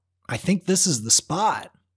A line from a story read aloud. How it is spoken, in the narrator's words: he called out